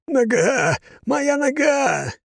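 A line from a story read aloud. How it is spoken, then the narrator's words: Wailing man. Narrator (Russian): вопил мужчина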